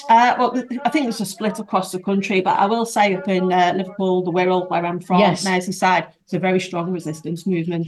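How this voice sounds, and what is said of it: Scouse accent. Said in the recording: “I do hear the accent, the lovely Scouse accent.”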